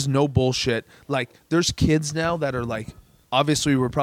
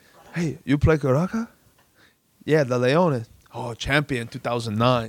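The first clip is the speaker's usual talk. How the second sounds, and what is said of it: Imitated Venezuelan accent. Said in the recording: “Do your Venezuela voice.”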